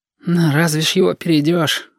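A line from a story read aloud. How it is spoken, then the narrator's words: Sighing. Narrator (Russian): Вздохнул кудрявость номер один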